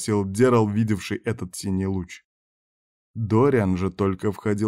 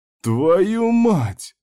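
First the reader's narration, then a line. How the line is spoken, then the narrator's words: Groan. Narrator (Russian): Простонал Дерл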